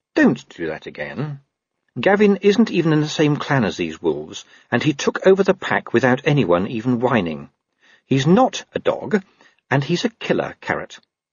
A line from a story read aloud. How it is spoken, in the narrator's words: said Angua sweetly